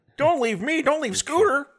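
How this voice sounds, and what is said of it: Impression of Muppet character Skeeter. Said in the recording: “a pretty good Skeeter impression”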